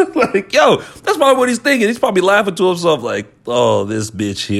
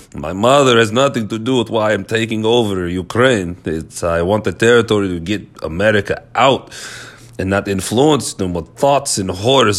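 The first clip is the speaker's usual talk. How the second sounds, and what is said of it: Put-on Russian accent. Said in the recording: “My Russian impression is annoying.”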